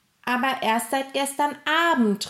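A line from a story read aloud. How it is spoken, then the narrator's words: Calling out. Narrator (German): rief Gustav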